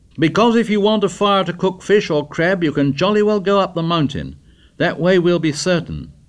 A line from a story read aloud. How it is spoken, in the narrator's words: Ralph shouted back